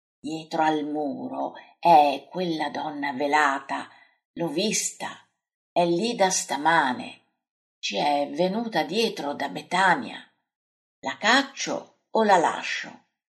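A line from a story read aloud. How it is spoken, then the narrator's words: Quiet murmur. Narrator (Italian): Pietro, gli mormora piano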